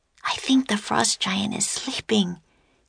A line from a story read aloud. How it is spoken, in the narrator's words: Annie whispered